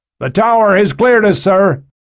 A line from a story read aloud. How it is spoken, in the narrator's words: The pilot shouted back